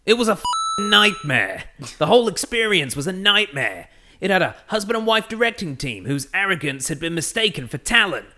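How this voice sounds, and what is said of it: Vague put-on Brooklyn accent. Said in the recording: “I can't do either, but I'll give it a crack ... I'll read it in the vaguest of Brooklyn accents”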